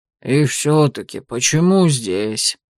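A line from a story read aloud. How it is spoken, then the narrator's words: Muttered. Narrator (Russian): пробормотал Вангард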